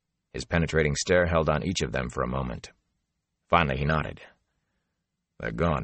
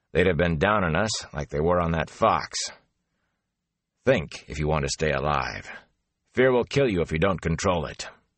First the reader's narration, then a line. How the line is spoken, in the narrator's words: Elias growled